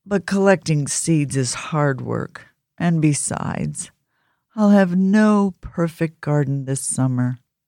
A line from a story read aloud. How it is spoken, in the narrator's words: Badger said sadly